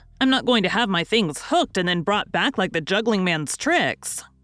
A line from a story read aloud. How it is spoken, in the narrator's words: cried Tommy